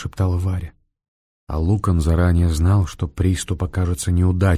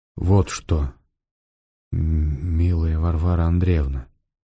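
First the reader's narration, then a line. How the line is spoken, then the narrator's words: Slow stammering speech. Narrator (Russian): медленно заговорил он, снова начал заикаться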